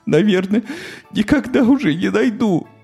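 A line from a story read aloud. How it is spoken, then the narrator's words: Inconsolable sobbing. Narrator (Russian): безутешно рыдала Тося Бося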